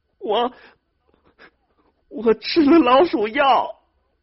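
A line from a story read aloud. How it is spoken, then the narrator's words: Loud wailing. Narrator (Chinese): 兰花大放声的哭开了，说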